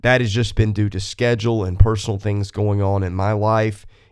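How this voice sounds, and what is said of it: Sick voice with a cold. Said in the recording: “as you can tell in my voice, I've gotten sick on top of that ... so I can get over this cold or whatever it is that I've got”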